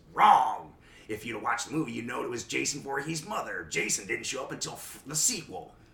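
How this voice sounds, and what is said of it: Imitates another person's voice. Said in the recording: “That was a pretty good impression.”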